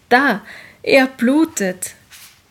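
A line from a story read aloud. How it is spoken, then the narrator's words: Crowd shouting, echoing. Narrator (German): schrien es alle und die Dommauern warfen den Schrei zurück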